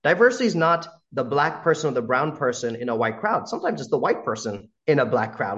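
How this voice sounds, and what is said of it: American accent. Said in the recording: “As a brown guy with an American accent”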